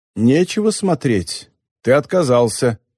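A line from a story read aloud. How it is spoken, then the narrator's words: Plain. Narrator (Russian): сказала Хакусана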